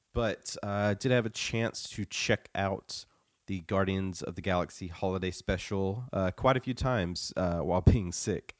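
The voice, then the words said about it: Sick, slightly off voice. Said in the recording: “my voice sounds off. I'm getting over the flu.”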